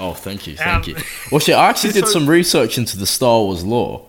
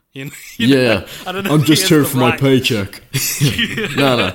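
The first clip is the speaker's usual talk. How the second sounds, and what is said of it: Imitates another person's voice. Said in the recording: “great Hayden Christensen impression”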